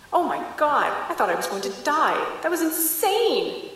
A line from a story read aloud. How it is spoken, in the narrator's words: she giggled